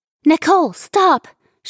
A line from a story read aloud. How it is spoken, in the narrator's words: Shelley shouted